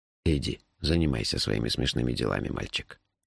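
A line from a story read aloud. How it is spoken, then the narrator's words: Tired old man. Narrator (Russian): устало сказал старик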